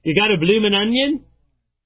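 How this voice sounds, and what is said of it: Bad put-on Australian accent. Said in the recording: “my bad Australian accent”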